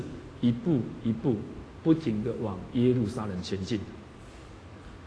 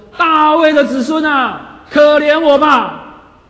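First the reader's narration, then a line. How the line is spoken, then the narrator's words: Loud cry. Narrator (Chinese): 他的声音……很大声的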